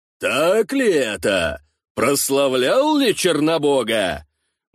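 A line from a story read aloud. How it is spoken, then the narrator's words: Deep booming voice. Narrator (Russian): басовитым раскатистым голосом спросил Геркул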